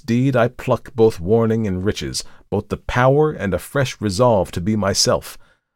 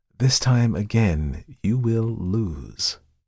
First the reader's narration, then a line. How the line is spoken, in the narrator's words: replied the visitor quietly